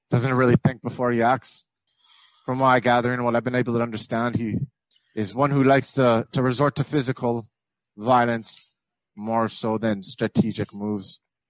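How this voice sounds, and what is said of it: Put-on Scottish accent. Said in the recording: “I ain't heard a Scottish accent in about 30 years.”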